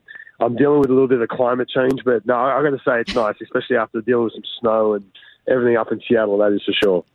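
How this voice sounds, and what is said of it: Hoarse, strained voice. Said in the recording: “I don't know if you can hear my voice. I've kind of lost my voice.”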